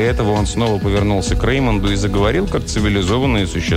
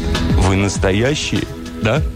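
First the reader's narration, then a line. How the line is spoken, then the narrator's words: Plain. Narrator (Russian): спросил Ноа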